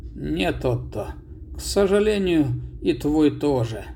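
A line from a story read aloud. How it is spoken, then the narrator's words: Sad old man. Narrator (Russian): печально старик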